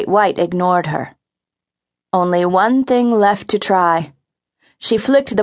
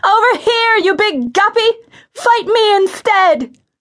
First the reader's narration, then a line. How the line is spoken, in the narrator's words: screamed